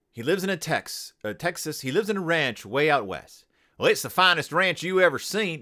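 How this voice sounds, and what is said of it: Weak put-on Texas accent. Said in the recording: “If I'm going to do a Texas accent. ... No, that's not even a good Texas accent. ... I can't do a Texas accent.”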